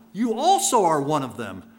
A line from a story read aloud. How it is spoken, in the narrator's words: someone else shouted